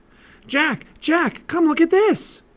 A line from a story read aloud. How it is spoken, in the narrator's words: cried Annie